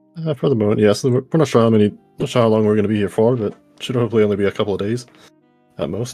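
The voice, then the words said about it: Irish accent. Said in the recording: “with that accent,... Irish?... Irish, yeah.”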